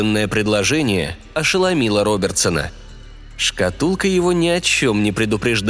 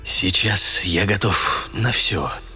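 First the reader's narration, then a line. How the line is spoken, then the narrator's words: Quiet. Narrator (Russian): тихо продолжал Мэрик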